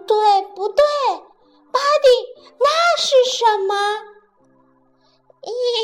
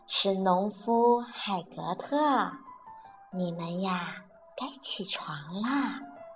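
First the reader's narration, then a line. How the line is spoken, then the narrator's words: Soft, gentle. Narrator (Chinese): 巴蒂轻声地说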